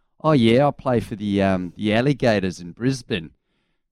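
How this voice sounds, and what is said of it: Put-on Australian accent. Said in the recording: “your Australian accent.”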